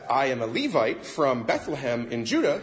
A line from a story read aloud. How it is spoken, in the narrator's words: he said